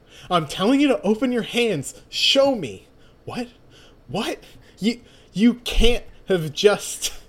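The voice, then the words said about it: Yelling. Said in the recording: “why are you yelling?”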